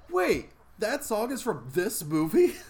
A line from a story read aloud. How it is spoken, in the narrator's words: Gabby yells out